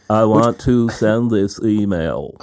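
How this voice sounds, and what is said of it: Attempted froggy, flat monotone impression. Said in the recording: “Richard Posner impression ... I need to be much more froggy and flat ... Oh, that's not good at all ... he's very monotone”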